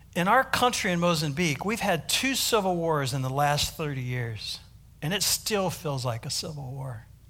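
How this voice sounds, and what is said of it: American accent. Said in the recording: “my American accent”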